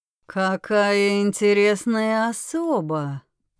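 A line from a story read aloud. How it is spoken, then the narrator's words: Drawled. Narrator (Russian): протянул он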